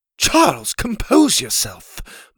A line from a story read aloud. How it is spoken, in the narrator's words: Ma said in her proper accent